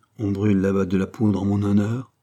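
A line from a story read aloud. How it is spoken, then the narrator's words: Plain. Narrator (French): dit-il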